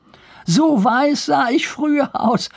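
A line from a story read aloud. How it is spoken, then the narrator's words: Laughing. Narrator (German): fügte er lachend hinzu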